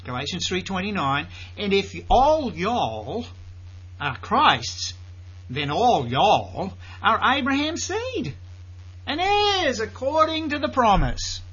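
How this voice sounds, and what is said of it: Put-on Southern drawl. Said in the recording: “I'm going to use my southern drawl again.”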